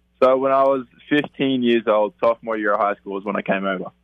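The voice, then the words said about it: Australian accent mixed with Texan. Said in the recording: “that's not a Texas accent that you have there, is it? ... It's an Australian accent originally, but I've been some years in Texas, too, so it's kind of mixed up and a bit of everything.”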